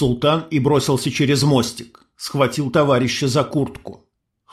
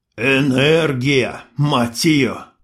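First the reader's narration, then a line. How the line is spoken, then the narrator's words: Sultan's clenched-teeth mutter. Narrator (Russian): процедил султан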